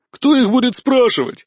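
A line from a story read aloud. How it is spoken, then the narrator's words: Belligerent exclamation. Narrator (Russian): воинственно воскликнула Варра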